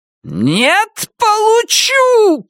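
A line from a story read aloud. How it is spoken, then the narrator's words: Woman shouting. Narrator (Russian): кричала зеленая дама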